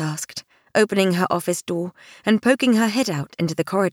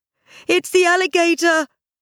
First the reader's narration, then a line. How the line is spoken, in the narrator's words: a visitor yelled